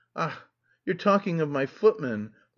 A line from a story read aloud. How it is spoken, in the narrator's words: Marya Timofyevna laughed suddenly